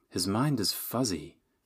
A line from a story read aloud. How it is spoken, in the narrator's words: the dragon murmured